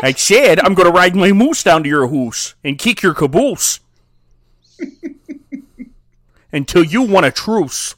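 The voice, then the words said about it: Put-on Canadian accent. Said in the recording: “This is a pretty good Canadian accent ... that was an okay Canadian”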